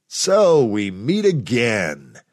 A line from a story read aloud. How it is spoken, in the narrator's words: he chuckled